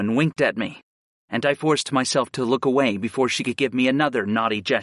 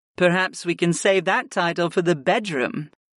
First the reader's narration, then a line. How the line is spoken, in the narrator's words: Arwen purred